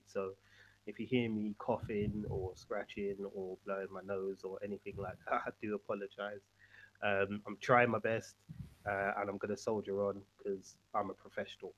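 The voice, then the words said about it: Congested voice from a cold. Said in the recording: “my voice sounds a bit messed up, but I've got a bit of a cold”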